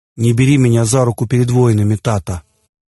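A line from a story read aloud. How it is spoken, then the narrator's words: Solemn. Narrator (Russian): торжественно произнес царевич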